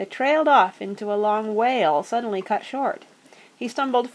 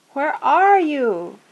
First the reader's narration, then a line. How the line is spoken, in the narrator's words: he cried out miserably